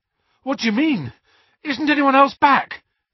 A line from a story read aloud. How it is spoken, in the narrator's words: Harry panted